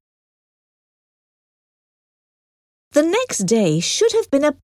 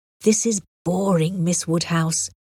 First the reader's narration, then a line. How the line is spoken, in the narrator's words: he whispered